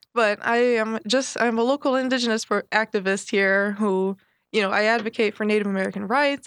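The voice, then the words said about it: Congested voice from a cold. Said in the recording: “I have a head cold.”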